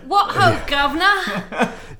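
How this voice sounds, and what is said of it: Exaggerated bad British accent. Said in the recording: “an awful, terrible accent. ... Like, it's so British.”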